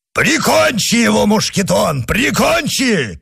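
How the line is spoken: Shout. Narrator (Russian): крикнул Портос

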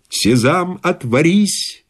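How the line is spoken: Plain. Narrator (Russian): ответил мой спутник

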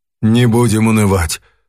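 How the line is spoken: Sighing. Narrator (Russian): вздохнул профессор

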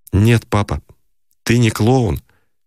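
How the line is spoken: Restrained, respectful, pained. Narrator (Russian): Он сказал сдержанным голосом уважения и боли

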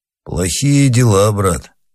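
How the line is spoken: Said gloomily. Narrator (Russian): сказал Панаргин мрачно

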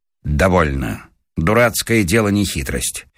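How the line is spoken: Suddenly angry, stern. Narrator (Russian): Павел Сучков вдруг озлился и сказал строго

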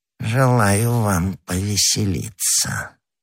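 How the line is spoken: Sepulchral voice. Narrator (Russian): отвечал Бонасье за могильным голосом

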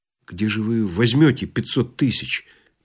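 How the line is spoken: Quiet question. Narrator (Russian): тихо спросил Балаганов

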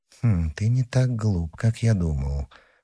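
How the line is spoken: Muttered to himself. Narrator (Russian): пробормотал про себя Мазарини

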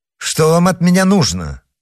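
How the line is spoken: Sharp question. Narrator (Russian): резко спросил герцог

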